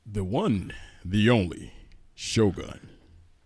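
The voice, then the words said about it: Put-on radio announcer voice. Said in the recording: “You don't sound like him. ... This is my radio voice. ... Wow. Wow. That's good.”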